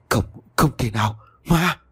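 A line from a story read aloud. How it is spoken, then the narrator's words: Terrified trembling stammer. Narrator (Vietnamese): Thuấn kinh hãi run rẩy lùi lại phía sau, miệng lắp bắp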